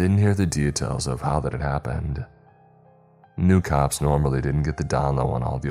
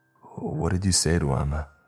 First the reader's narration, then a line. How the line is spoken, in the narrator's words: I asked in a strained voice